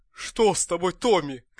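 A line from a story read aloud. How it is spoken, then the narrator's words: Shout. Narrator (Russian): крикнул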